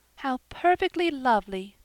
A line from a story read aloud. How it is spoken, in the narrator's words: sighed Diana